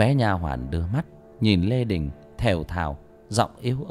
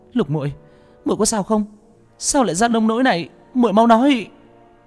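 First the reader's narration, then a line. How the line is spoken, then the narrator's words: Urgent worried shout. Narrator (Vietnamese): vội vàng chạy tới đỡ nó, hét lên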